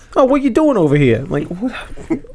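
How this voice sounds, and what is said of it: Exaggerated stereotypical Brooklyn accent. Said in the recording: “over stereotypical Brooklyn accent ... Is he Joe Pesci?”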